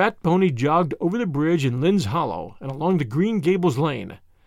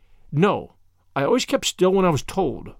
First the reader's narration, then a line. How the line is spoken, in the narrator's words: said Marilla, trying to speak sternly, albeit she felt her heart waxing soft within her